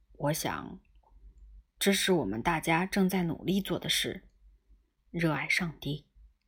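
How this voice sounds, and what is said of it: Lowered, hushed voice. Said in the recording (Chinese): “用压低了的声音说道”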